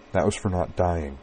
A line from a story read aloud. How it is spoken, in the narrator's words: told him softly